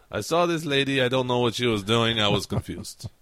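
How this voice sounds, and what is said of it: Put-on Russian accent. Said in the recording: “That's the best Russian accent I can do anyway.”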